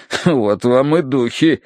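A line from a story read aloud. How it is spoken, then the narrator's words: Snorting. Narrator (Russian): хмыкнул полковник Меринг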